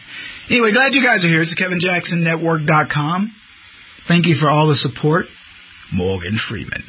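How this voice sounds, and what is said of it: Slightly hoarse voice. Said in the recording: “I'm hoarse. ... I am a little bit, my throat, because I talk so much”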